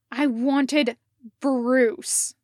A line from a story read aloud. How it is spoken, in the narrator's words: Jason snapped